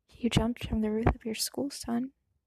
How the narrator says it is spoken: told him, his voice soft

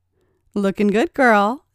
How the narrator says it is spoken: laughed

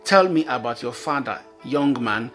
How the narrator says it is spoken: Saul said

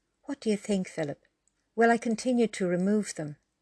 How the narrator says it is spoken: asked Paula

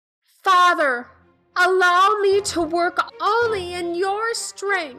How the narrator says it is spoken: Elizabeth yelled as the snake moved in to attack her

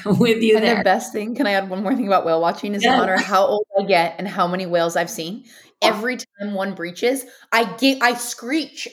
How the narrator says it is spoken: I giggle

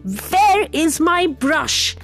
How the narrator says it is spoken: shouted at the top of his voice

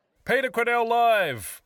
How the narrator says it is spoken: hollered

